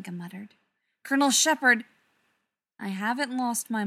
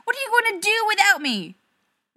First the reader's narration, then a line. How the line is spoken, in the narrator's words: Rodney yelled